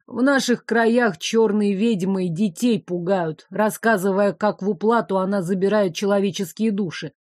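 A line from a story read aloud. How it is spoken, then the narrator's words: Ominous voice. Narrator (Russian): зловещим голосом произнес ученик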